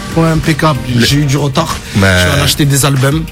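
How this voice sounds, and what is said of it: Marseille French accent. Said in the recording (French): “Avec ce joli accent marseillais.”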